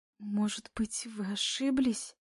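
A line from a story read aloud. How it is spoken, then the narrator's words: Timid question. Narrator (Russian): Робко спрашивает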